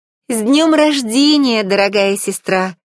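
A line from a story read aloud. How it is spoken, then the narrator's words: Exclamation. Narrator (Russian): воскликнула Ариэль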